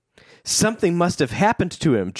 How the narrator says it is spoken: Joe cried out

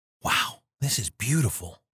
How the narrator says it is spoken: Barry whispered reverently

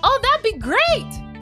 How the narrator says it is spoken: Carolyn shouts

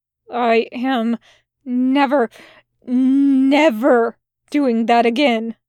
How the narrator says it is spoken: he groaned

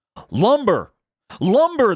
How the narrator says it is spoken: they cried

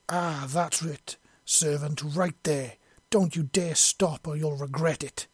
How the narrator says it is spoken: she roared

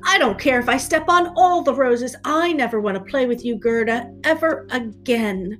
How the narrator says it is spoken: Kai cried out

